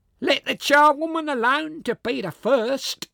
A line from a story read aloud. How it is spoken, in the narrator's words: cried she who had entered first